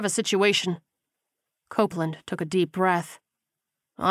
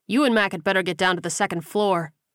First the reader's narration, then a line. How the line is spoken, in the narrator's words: the corporal said firmly